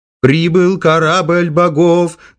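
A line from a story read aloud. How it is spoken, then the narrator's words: Singsong chanting. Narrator (Russian): нараспев проговорил Акиена Боб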